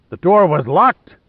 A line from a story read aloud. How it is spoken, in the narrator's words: Lohan bellowed